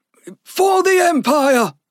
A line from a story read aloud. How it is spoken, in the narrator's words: a magi shouted loudly, trying to encourage Frost